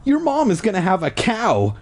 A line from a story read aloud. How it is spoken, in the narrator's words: she cried unhappily